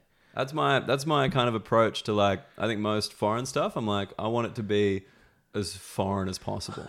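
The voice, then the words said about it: Soft, educated Australian accent. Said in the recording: “I love your accent ... The Australian accent ... yours is like soft and nice ... It's a softer one ... This is the educated Australian accent”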